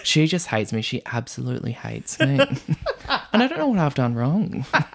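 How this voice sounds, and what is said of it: Impression of Victoria. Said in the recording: “Really good impression ... taking in Victoria lines ... she's the only one I can imitate”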